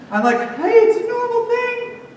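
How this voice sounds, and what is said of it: Nervous voice rising in pitch. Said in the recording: “I don't know why my voice is getting higher”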